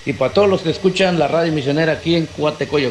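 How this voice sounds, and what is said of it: Polished announcer-like voice. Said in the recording (Spanish): “me gusta la voz de ... es una voz de locutor”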